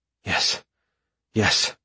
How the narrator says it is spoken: I whisper out on a gasping breath

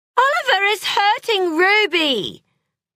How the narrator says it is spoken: wailed Holly

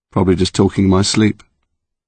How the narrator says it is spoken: Connor said, flatly

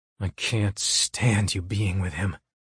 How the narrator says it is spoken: I rasp into her ear

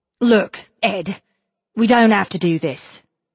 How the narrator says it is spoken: Kes said sharply

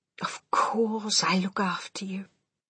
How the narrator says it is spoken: my grandmother murmured

